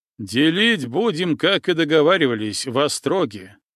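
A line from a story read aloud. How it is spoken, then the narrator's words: Loud reminder. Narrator (Russian): громко напомнил всем Матвей Серьга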